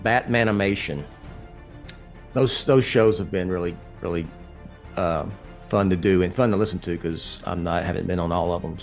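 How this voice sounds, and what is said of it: Mush-mouthed Southeastern US accent. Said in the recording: “my mush mouth Southeast accent comes out”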